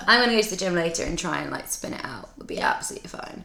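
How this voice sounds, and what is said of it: Husky, hoarse voice. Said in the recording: “my voice is so husky”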